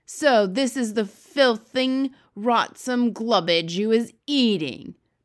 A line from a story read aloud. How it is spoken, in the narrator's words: boomed the blood bottler